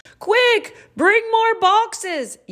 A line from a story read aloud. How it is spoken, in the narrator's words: yelled a man with a tall white hat